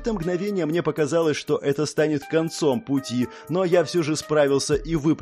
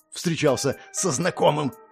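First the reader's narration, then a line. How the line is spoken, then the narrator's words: Voice turning hoarse. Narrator (Russian): Голос обернулся хрипом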